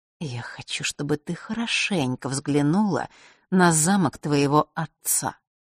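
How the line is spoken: Whispered in ear. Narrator (Russian): прошептала Елена Василисе прямо в ухо

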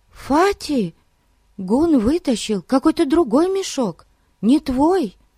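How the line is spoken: Alarmed voice. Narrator (Russian): сказала встревоженным голосом Дейзи

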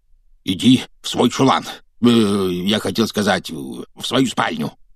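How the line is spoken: Hoarse wheeze. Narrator (Russian): прохрипел он

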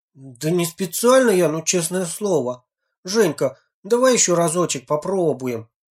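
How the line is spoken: Pleading. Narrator (Russian): взмолился Леха

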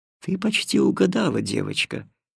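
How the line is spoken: Gentle, tender. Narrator (Russian): ласково промолвила душа Света

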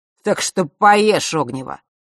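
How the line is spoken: Angry. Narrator (Russian): зло добавил Марк

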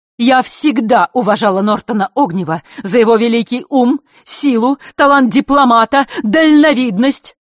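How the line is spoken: Loud declaiming. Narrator (Russian): громко вещала Елена

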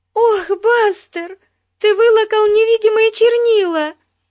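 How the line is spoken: Shouting, near tears. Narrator (Russian): чуть не плача закричала Бетси

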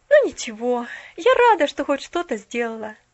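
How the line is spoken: Sighing to herself. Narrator (Russian): вздохнула она про себя

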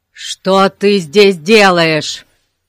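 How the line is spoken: Barked. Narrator (Russian): рявкнул мистер Гун

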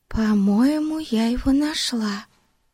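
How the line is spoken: Whisper. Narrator (Russian): шепнула Бетси Пипу

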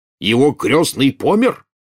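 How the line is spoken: Loud question. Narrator (Russian): громко спросил дядя Вернон

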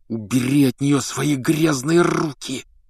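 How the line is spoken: Whispered growl. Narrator (Russian): шепотом прорычал Гарри

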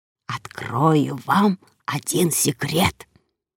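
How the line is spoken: Old man whispering. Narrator (Russian): перешел на шепот дедушка Оскар

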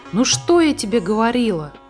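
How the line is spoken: Happy. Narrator (Russian): радостно сказала Муми-мама

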